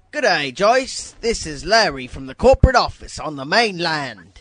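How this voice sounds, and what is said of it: Put-on British accent. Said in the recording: “when I do the British accent ... I did a British accent”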